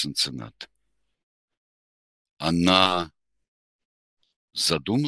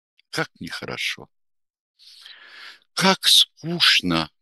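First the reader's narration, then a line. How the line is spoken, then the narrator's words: Deep sigh. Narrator (Russian): проговорила она, глубоко-глубоко вздохнув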